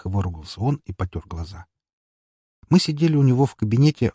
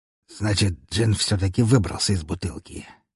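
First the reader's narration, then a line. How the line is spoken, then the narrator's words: Mutter. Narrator (Russian): пробормотал князь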